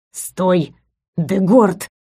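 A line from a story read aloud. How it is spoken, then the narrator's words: Hiss in ear. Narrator (Russian): зашипел ему на ухо Матис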